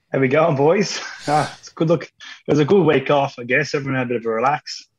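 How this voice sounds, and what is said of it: Sore, strained voice. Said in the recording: “My voice is sore. ... my voice is sore.”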